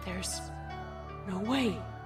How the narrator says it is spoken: Celestia muttered

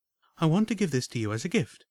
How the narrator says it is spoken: Homage said with a soft smile and a warm but insistent voice

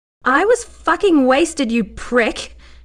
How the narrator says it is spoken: she shouted at him

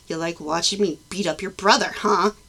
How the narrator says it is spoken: he growled at her

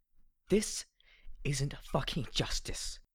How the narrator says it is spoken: I hissed

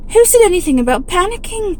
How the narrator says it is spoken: snapped Arthur

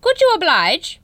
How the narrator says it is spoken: boomed the thing

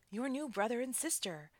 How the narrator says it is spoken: the father shouted with joy

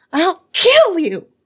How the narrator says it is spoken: screaming and weeping

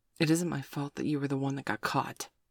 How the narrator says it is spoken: Sabrina sighed

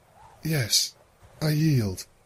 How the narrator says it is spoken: whispered with downcast eyes

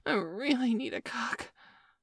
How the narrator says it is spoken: I moaned breathlessly as my orgasm steadily built up inside of me

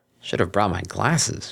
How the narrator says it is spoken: muttered

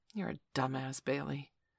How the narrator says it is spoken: he said to himself quietly

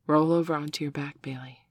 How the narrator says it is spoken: she purred softly in his ear

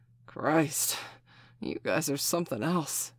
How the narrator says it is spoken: he finally managed to gasp

